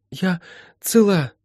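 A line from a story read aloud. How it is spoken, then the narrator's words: Breathless. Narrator (Russian): выдохнула Молли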